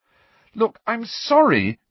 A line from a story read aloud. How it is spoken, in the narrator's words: cried Hermione